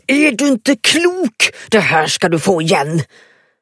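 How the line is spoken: Roared. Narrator (Swedish): Hon reste sig med möda och vrålade

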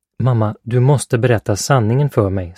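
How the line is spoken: Plain. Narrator (Swedish): sa Philip

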